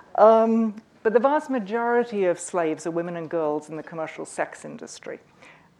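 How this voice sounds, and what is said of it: Mid-Atlantic accent. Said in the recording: “My accent somewhere hovers over the mid-Atlantic”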